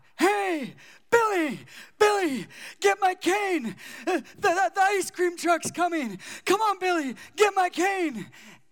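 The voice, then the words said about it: Made-up old man voice. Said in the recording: “made-up voices or in different accents ... the really cool old guy”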